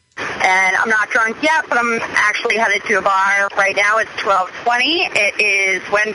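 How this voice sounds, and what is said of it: Boston accent. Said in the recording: “I love the Boston accent.”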